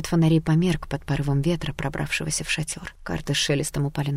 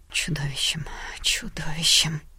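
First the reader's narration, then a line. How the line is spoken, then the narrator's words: Whispering from everywhere. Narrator (Russian): зашептала отовсюду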